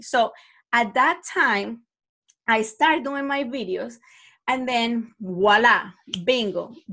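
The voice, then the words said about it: Speaks with a noticeable accent. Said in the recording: “I love the accent ... because of your accent ... very positive things about my accent”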